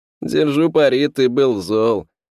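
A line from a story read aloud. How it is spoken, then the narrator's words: Chuckled. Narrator (Russian): хохотнул приятель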